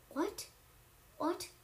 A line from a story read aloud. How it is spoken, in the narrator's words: the king sputtered